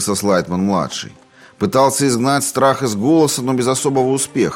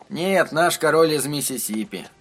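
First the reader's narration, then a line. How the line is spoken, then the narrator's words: Muttering. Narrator (Russian): пробормотал Эдди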